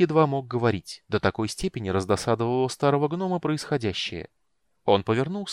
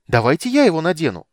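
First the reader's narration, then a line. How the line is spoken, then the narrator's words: Hopeful shout. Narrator (Russian): с надеждой выкрикнул Тасельхов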